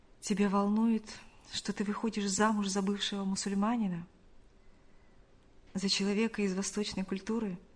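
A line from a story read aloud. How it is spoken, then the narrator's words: Quiet question. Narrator (Russian): Шамиль, взяв ее за руку, тихо спросил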